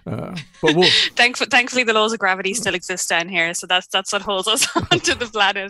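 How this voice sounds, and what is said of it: Irish accent. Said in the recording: “as you can probably possibly tell from my accent, I'm not actually from New Zealand originally. I'm Irish”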